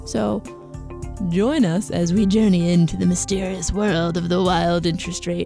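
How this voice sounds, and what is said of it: Imitates another person's voice. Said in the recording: “my best David Attenborough impression... Because it was bad.”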